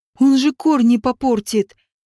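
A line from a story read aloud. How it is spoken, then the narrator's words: Mournful groan. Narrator (Russian): Горестно застонал Наг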